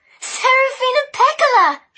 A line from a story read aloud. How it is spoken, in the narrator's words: She cried